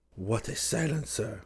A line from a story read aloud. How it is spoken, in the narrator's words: Duquesne whispered to Seaton